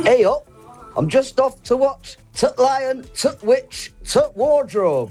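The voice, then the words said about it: Exaggerated imitation of Yorkshire accent. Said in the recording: “our Yorkshire accents ... he's done an impression of us”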